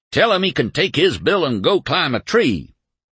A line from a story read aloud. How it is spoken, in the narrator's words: he would be bellowing